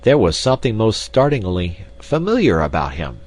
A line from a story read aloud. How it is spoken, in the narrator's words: exclaimed Mr